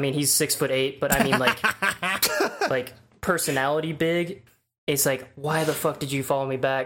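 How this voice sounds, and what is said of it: Usual voice. Nothing is said of it.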